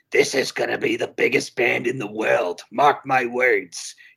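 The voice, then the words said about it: Imitates another person's voice. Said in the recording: “My impression is not offensive, and it's pretty on point.”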